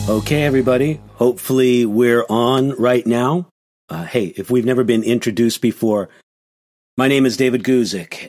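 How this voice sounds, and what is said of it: Sick, weakened voice. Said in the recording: “hear in my voice, but my voice isn't up to snuff... I'm sick”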